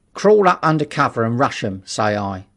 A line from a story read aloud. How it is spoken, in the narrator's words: said one